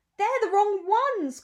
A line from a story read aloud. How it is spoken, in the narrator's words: cried Sly Looking, pretending to be very alarmed